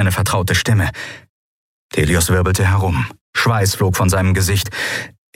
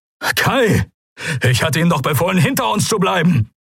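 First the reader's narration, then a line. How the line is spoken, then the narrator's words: Calling out. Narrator (German): rief Telios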